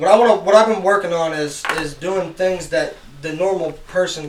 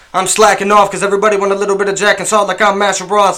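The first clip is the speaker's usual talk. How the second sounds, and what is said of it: Rapid-fire rap delivery. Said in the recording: “when you say that fast”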